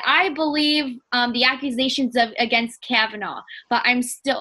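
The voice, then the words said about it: Put-on New Jersey accent. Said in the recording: “oh, that was a Jersey accent”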